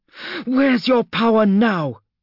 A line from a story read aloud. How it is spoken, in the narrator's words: Gelser snarled